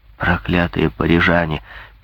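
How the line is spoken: Muttered. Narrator (Russian): пробормотал Грингуар

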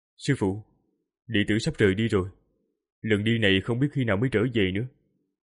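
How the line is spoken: Quiet voice. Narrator (Vietnamese): Tô Minh nhỏ giọng nói

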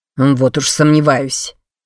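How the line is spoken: Scoffing snort. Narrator (Russian): фыркнул Креван

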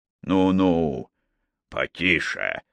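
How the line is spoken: Through clenched teeth. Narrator (Russian): процедил боцман, крепко сжимая зубами мундштук трубки

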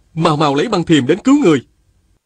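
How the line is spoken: Urgent shout. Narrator (Vietnamese): Viên Thừa Chí la lên

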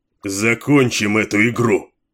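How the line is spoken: Barked. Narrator (Russian): рявкнул Кейн

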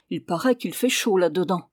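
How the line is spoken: Exclaiming. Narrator (French): s'écria-t-il en voyant cela

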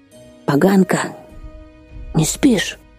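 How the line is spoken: Sudden wheeze from darkness. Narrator (Russian): неожиданно просипела из темноты

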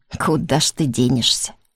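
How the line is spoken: Chuckle over the phone. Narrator (Russian): На том конце трубки хохотнули

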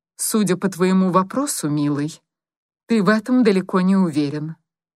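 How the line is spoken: Even, level voice. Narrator (Russian): ровным голосом произнесла она

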